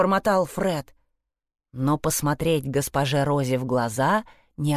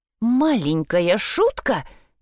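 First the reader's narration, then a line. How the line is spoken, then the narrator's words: Exclamation. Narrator (Russian): воскликнула она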